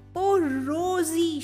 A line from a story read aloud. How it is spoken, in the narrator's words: cried